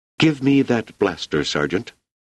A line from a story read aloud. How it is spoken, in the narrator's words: she said tightly